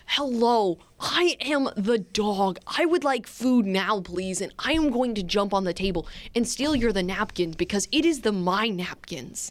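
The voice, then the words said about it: Dog character voice, TED-talk style. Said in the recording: “Why does she sound like a TED Talk? ... It's the Doug voice.”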